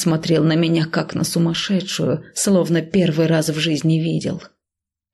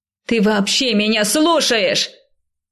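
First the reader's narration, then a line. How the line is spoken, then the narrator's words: Shouting while struggling free. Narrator (Russian): закричала я, вырываясь из его объятий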